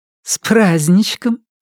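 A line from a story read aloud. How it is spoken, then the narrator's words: Giggling behind a door. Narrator (Russian): хихикнули за дверью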